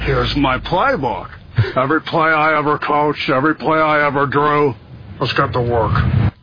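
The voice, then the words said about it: Nicolas Cage impersonating John Madden. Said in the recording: “That's like someone doing an impression of Nicolas Cage doing an impression of ... John Madden”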